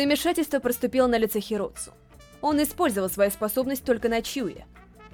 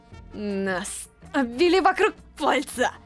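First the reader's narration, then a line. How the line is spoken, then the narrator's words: Through gritted teeth. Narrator (Russian): Процедил Дазая, держась за живот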